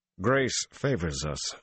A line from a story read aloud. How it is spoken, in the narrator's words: Dobrain growled